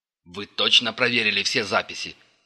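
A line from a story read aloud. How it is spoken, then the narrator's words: Barking. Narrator (Russian): рявкнул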